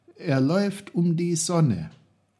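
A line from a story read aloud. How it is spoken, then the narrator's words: Calling out. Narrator (German): rief Peter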